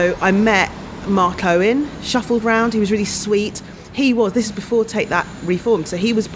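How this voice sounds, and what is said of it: Usual voice. Nothing is said of it.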